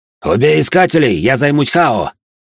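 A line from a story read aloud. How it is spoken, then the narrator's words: Shouted command. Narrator (Russian): прокричал командир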